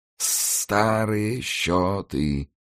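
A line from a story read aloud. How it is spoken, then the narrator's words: Hissing, hoarse chuckle. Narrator (Russian): прошипел он, сопроводив последнее слово хриплым смешком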